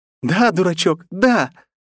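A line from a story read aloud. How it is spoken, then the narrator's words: Happy laughing. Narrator (Russian): Снова счастливо засмеялась Аня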